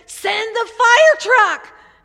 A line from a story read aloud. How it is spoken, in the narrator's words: again the voice cried